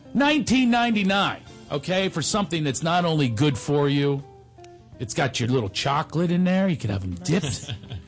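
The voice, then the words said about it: Philadelphia accent. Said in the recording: “I know I can't pronounce berries. ... I have a Philadelphia accent.”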